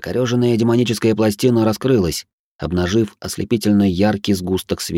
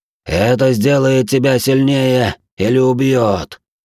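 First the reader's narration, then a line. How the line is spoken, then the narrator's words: Dying rasp. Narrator (Russian): прохрипел, прежде чем рассыпаться бесформенной массой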